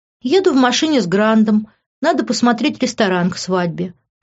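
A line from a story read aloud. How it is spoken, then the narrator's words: Feigned sad sigh. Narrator (Russian): притворно печально вздохнула я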